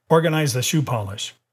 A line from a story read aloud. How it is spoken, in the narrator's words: he said sharply